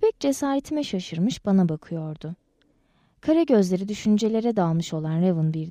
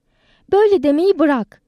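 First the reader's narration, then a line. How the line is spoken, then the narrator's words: Shouting. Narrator (Turkish): diye bağırdım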